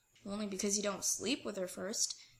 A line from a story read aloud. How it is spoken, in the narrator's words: Scott mumbles